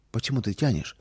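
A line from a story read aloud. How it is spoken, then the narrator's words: Quiet, impatient question. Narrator (Russian): Мама не могла дождаться … тихо спросила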